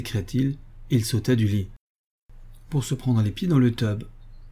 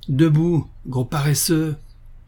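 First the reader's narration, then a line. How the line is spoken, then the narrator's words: Roaring. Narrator (French): rugit Harry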